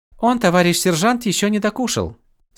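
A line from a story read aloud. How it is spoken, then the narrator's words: Sweet purring woman's voice. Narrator (Russian): сладким голосом промурлыкала моя недавняя собеседница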